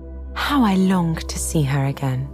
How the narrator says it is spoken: said Miss Bingley

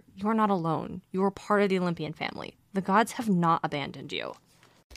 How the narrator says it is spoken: A voice inside him seemed to whisper

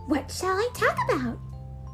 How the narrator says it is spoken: he asked eagerly

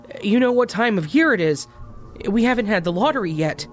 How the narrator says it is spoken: In a panicked tone, stated

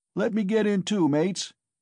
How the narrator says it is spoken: shouted a young man in the crowd whose appetite was aroused

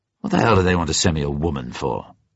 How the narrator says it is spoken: He said bitterly

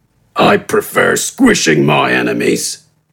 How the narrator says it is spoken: responded gruffly

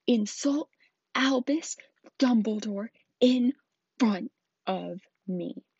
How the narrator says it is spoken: he thundered

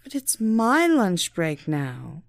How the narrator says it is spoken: she whined

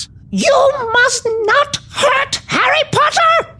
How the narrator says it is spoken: He squeaked

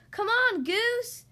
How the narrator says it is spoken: Duck yelled

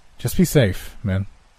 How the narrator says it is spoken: said

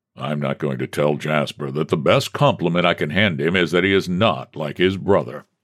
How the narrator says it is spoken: the president grumbled

